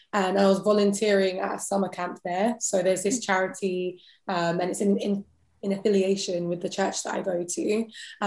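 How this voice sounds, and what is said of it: British accent. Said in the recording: “You have a British accent. You're from England.”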